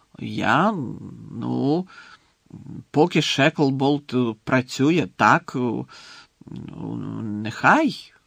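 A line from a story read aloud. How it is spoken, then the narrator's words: Unconvincing mutter. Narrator (Ukrainian): непереконливо пробурмотів прем'єр-міністр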